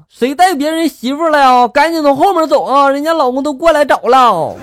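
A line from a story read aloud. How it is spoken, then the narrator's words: Shouting. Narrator (Chinese): 保安大哥冲进来就喊了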